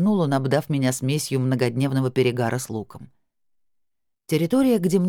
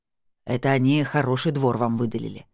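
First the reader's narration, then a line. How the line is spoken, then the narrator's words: Authoritative statement, then sigh. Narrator (Russian): авторитетно заявил Семён и вздохнул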